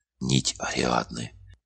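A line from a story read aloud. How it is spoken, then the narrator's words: Enchanted whisper. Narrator (Russian): прошептала Лата, зачарованно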